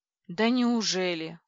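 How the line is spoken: Ironic exclamation, woman. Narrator (Russian): с иронией воскликнула я

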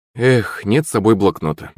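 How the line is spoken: Sighed. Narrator (Russian): вздохнул Акулыч

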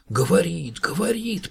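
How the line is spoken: Mother whispering. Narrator (Russian): прошептала Котькина мама

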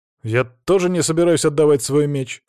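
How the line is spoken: Snorting. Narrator (Russian): хмыкнул Алексей

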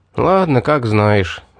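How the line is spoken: Sighing. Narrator (Russian): вздохнул

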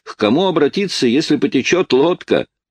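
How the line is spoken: Shouted. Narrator (Russian): я крикнул

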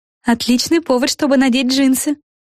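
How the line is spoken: Exclaimed. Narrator (Russian): воскликнула Флафанора

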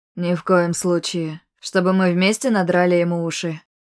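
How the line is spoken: Chuckled. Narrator (Russian): Хохотнул он

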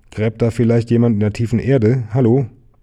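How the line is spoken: Called out. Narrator (German): rief

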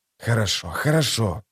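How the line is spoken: Hiss. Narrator (Russian): прошипел историк

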